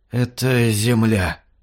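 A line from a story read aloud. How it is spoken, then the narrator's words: Creaky dry voice. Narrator (Russian): проскрипевший сухой голос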